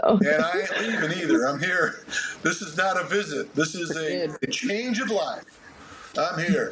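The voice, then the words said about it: Southern US hillbilly dialect. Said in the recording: “I'm starting to take up some of the dialect ... talking, you know, like a hillbilly”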